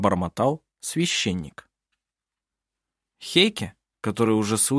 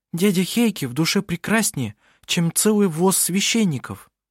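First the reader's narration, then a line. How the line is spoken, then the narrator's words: Indignant. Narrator (Russian): возмущенно сказала она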